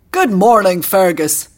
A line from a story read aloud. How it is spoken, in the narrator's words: bellowed Farlan